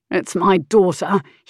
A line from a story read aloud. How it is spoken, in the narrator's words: he grumbled